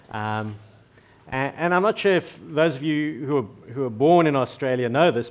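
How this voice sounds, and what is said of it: South African accent. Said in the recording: “I no longer have a South African accent. This is my Australian accent now.”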